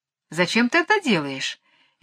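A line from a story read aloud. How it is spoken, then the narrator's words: Cheerful gentle smiling voice. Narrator (Russian): весело спросила Барби своим нежным голоском, в котором всегда слышалась улыбка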